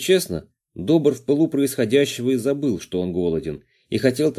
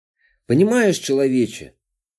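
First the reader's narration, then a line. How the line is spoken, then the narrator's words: Sighing. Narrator (Russian): вздохнул Водяной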